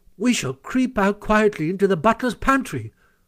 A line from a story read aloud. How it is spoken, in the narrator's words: cried the mole